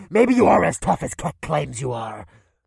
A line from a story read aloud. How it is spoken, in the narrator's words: Ashdel Khan spat with rage